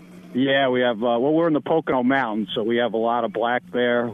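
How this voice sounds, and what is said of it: Northeastern Pennsylvania accent. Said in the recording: “We're like northeast, as you could tell. ... I can tell by your accent.”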